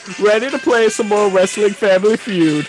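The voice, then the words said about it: Imitates another person's voice. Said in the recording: “I forgot the impersonation.”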